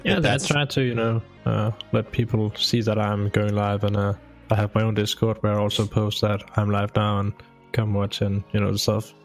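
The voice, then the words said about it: Danish-accented English. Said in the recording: “I hear that you have an accent. ... That is Danish. ... From Denmark.”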